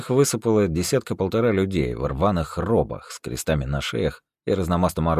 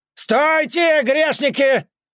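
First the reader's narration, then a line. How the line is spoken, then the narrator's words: Yelled. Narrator (Russian): заорал он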